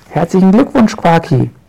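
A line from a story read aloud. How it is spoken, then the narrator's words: Shout. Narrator (German): schreit sie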